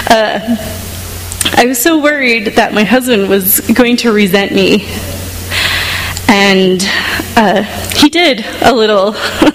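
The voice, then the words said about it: Emotional, shaky voice. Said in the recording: “I'm a little emotional here.”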